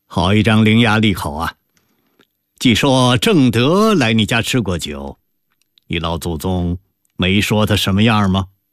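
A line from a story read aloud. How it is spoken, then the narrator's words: Laughing. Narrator (Chinese): 康熙一边笑着，说道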